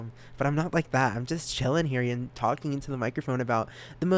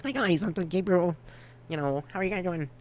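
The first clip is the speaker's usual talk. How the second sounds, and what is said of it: Imitates another person's voice. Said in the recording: “my best Ben Shapiro impression”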